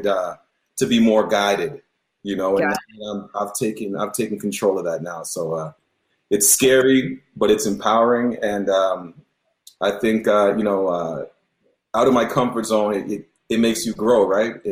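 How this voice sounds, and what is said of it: Slight Jamaican-Canadian Toronto accent. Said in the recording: “I hear a little bit of an accent in your voice. So it could just be a regional accent ... Jamaican descent, but I was born and raised in Toronto, so still got a little bit of that Toronto Toronto lingo”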